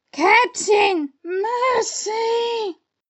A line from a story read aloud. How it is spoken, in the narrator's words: Starkey whimpered, all of a tremble